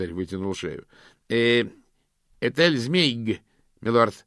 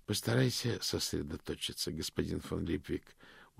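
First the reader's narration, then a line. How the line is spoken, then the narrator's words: Tired. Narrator (Russian): устало сказал ветеринарий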